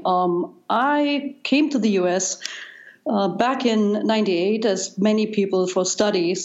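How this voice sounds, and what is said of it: German accent. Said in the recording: “as you probably can tell by now by my accent, I, I grew up in Germany, and East Germany”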